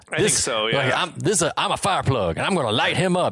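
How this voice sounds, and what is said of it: Imitated Southern US accent. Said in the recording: “He does not sound like a boss. He doesn't sound like he's from Boston. ... He sounds like he's like from the South, right? He's like a Southern accent.”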